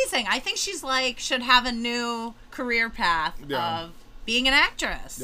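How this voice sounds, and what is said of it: Usual voice. Nothing is said of it.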